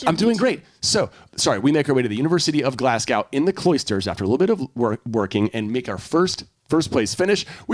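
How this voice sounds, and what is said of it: Very fast speech. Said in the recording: “you're talking so fast.”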